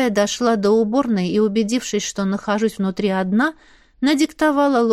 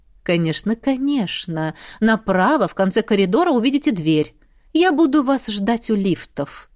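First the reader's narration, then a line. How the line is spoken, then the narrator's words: Courteous cooing lawyer. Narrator (Russian): любезно проворковал адвокат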